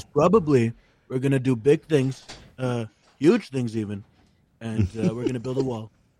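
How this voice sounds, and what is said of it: Donald Trump impression. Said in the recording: “great Trump impression ... That was pretty good ... it sounds like Trump ... That almost sounded like Shane Gillis's Trump impression.”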